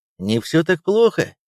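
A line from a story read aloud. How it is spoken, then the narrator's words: Sergeant laughing. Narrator (Russian): рассмеялся старшина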